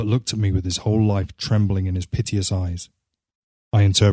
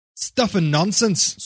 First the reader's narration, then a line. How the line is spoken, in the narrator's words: snapped the old man